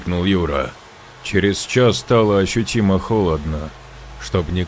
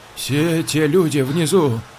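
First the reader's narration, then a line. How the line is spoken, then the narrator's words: Trembling voice. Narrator (Russian): дрожащим голосом произнесла Катя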